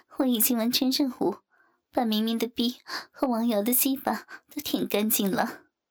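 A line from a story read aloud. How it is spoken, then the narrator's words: Laughing. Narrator (Chinese): 王翠花仰起头笑道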